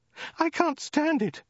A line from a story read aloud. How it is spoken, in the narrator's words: cried the woman